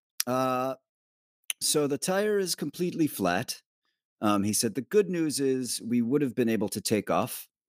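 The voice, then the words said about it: Put-on fake accent. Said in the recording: “I'm going to do a fake accent here”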